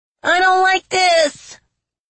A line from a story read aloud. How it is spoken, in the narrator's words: Ver yelled, as he dodged a mandible that was as thick as a tree